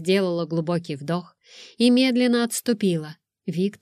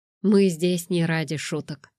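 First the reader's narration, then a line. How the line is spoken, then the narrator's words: Calm, curt remark. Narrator (Russian): спокойно бросил Дмитрий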